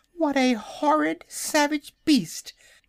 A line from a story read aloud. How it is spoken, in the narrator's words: exclaimed a piglet